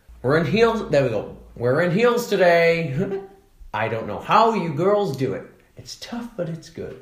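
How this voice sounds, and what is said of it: Impression of Caitlyn Jenner. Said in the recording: “can you do your Caitlyn Jenner impression”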